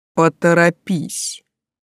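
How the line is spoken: Quiet menacing command. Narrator (Russian): Тихо, грозно распорядился он

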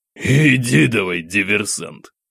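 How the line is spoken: Laughing captain. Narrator (Russian): хохотнул капитан с улыбкой

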